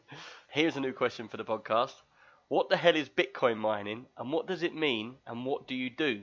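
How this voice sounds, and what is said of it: Usual voice. Nothing is said of it.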